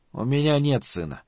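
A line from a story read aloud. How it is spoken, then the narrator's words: Very quiet. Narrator (Russian): сказал Малиберт, но очень тихо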